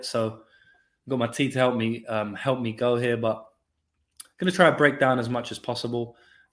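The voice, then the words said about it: Sick, low-energy voice. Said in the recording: “As you can probably tell by my voice, a little bit sick, a little bit out of it. ... The energy level isn't really there for me right now”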